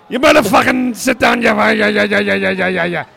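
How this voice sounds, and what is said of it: Bad put-on Belfast Irish accent. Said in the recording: “He was Irish, obviously. You can tell by the accent... I apologise to our Belfast men's here because that is the worst accent I've ever heard in my life.”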